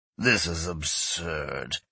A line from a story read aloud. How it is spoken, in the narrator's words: Yesan grumbled